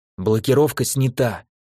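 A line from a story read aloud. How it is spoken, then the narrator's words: Whisper. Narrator (Russian): прошептал ему Винченцо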